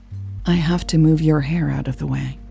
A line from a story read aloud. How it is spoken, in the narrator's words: Lucas said quietly